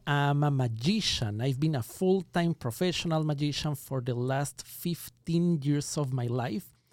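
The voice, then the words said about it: Ecuadorian accent in English. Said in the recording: “I was born and raised in Ecuador. That explains the accent.”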